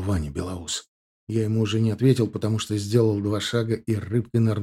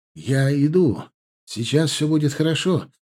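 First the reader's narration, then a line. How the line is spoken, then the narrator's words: Shouted. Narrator (Russian): закричал я девчонке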